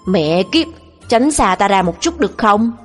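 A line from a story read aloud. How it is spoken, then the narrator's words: Roaring angrily. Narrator (Vietnamese): Tôi gầm lên với Lục Ly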